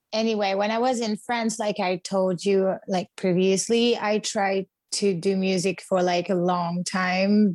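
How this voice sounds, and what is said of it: French accent speaking English. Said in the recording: “I'm French, so you might know it because of my accent. I tried to be California, but I think that I will always have this accent”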